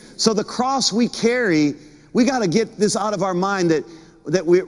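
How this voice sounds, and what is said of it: Usual voice. Nothing is said of it.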